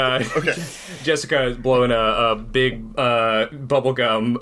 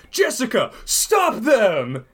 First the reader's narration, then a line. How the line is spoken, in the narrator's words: The manager of the office shouts